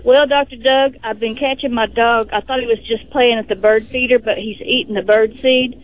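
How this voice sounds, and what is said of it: Texan accent. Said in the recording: “Where's that accent from? ... I'm the one from Texas.”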